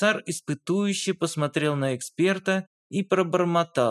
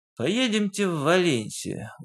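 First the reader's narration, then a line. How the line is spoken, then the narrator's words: Weary repetition. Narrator (Russian): устало повторил Дронго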